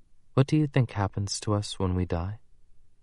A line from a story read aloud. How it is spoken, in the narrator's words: she asked very softly